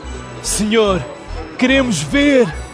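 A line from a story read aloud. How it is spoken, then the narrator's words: Exclaiming together. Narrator (Portuguese): exclamaram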